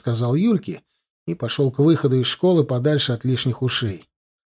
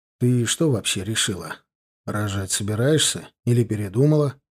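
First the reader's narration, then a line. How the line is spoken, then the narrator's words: Gloomy question. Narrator (Russian): мрачно спросил подругу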